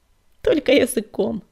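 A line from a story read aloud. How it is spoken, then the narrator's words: Laughing. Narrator (Russian): рассмеялся Огнегрив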